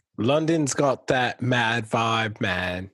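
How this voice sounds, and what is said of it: Good imitation London accent. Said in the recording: “That's a really good Londoner accent, actually.”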